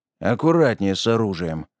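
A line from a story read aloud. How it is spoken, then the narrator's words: Grumbled. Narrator (Russian): проворчал Гриша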